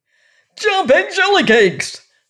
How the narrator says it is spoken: screamed the king

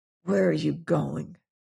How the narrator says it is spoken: he asked hoarsely

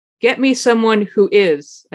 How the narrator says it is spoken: said

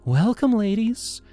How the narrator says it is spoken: Leela chirped, her voice syrupy sweet

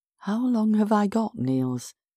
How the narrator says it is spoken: asked weakly

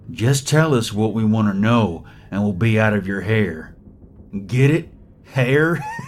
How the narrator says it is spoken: he drawled in his Texan accent

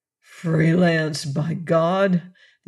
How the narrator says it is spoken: The chief sighed

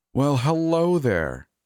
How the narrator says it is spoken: exclaimed cheerfully

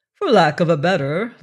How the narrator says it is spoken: laughed the captain, good-humoredly contemptuous

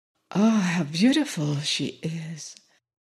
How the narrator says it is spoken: Everywhere ran the murmur

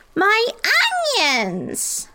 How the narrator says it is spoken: Pip Van Winkle cried

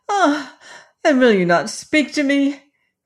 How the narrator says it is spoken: cried she

